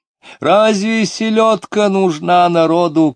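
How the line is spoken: Shouting. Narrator (Russian): кричала Сомова

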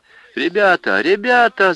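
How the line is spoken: Thin, whiny shout. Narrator (Russian): закричал Евсей тонким, плаксивым голосом

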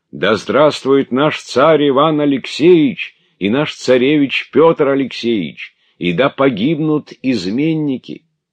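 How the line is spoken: Crowd shouting continuously. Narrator (Russian): Стрельцы, бывшие внизу, непрерывно кричали

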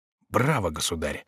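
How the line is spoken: Whisper. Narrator (Russian): прошептал Шико

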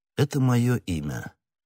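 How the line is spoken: Calm. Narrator (Russian): спокойно сказал Атос

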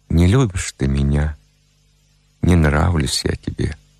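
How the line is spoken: Sad, smiling speech. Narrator (Russian): печально улыбаясь, проговорил

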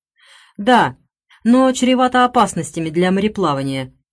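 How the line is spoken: Deep bassoon-like bass. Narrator (Russian): вступил басом Ричард, будто фагот после изящной скрипичной трели

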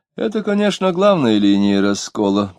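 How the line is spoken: Soft sing-song voice. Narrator (Russian): продолжал Радеев, еще более певучий и мягко

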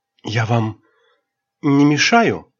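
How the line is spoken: Meek, sad voice. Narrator (Russian): сказал он кротким печальным голосом

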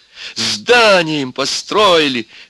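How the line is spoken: Madman's continued shouting. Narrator (Russian): все кричал психопат

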